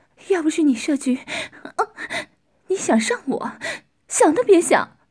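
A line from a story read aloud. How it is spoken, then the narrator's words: Lewd laughing voice. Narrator (Chinese): 男人淫笑着说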